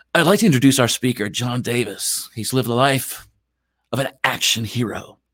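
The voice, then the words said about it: Announcer-style radio voice. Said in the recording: “put on my official radio voice.”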